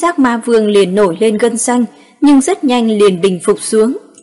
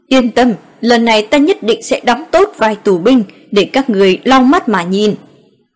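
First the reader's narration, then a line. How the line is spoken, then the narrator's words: Through gritted teeth, annoyed. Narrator (Vietnamese): Bảo Bất Bình có chút tức giận, cắn răng nói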